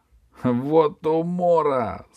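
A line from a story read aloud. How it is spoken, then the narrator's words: Savage's loud guffaw. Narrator (Russian): захохотал дикарь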